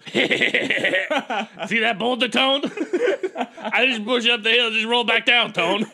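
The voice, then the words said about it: Poor impression of Paulie. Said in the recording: “terrible Paulie impression ... It's hard to do Paulie”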